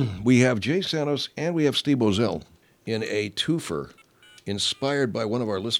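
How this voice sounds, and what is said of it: Usual voice. Nothing is said of it.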